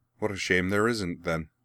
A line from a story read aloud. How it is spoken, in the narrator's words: Azula replied, equally dryly